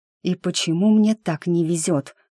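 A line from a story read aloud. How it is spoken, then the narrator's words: Sighing. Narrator (Russian): вздохнула я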